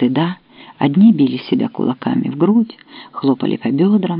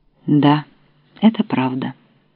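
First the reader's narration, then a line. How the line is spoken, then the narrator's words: Gloomy. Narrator (Russian): Повалу, который с минуту времени стоял, мрачно потупив глаза, а потом сказал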